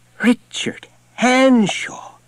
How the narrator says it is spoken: Hanshaw cried

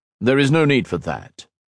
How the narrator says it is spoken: said Shinzan

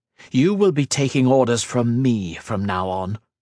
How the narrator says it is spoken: growled

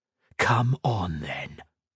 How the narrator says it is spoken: he whispered

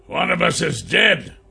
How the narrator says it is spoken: he barked back

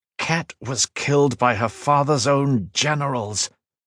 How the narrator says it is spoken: Lineal said through gritted teeth

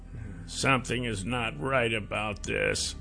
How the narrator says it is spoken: he muttered

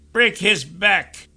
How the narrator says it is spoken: Phineas yelled from somewhere

